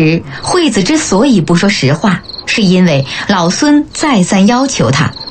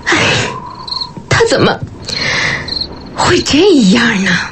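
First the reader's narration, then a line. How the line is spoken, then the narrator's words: Pained sigh to oneself. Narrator (Chinese): 痛苦地摇着头，自顾自地叹息着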